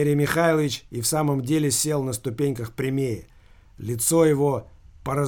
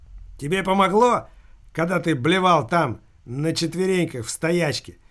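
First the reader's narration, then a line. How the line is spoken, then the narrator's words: Loud mechanical shout. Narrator (Russian): Закричал на весь дворик его механический приятель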